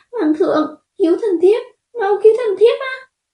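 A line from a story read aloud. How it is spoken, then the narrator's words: Desperate cry for help. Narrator (Vietnamese): như thấy được cứu tinh, liền kêu lên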